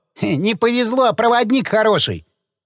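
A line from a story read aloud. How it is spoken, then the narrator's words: Chuckle. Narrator (Russian): хохотнул Напалм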